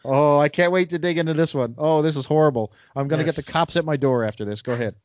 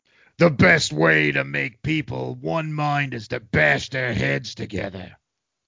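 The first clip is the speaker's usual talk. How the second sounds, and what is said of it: Hulk character voice impression. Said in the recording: “my best Hulk impression”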